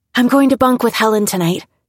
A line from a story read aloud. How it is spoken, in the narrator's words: she said breathlessly